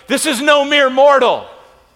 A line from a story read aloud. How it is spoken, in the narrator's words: they were shouting